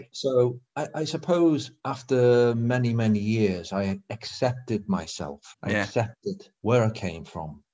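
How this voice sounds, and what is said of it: Northern English accent. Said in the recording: “You've got a northern accent. ... I'm a northerner.”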